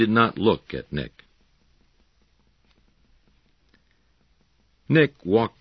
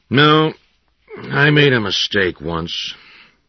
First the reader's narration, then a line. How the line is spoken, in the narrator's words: said in a flat voice